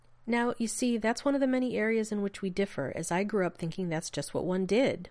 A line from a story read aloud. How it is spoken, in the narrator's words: Rodney said bitterly